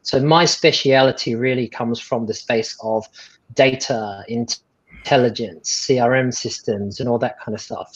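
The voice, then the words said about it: Non-local accent. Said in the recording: “You can probably tell from my accent that I'm not from around here.”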